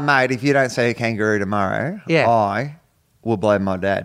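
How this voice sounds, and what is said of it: Put-on Australian accent. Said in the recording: “I love that I'm doing an Australian accent”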